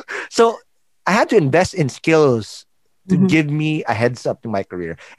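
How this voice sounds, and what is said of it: Call center accent. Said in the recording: “I had to work in a call center. That's why I have this accent now, which is fake”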